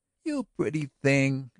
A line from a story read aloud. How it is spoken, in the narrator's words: exclaimed Miss Florrie